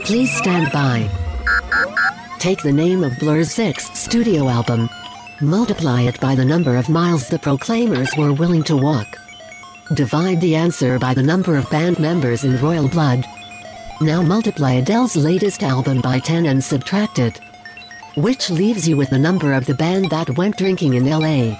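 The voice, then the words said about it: Creepy voice. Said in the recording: “creepy voice”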